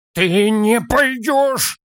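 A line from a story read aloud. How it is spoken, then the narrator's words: Near-groan through teeth. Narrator (Russian): почти простонал он сквозь зубы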